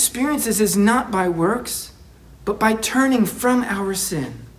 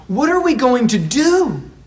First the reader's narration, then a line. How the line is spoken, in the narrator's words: they yell to Peter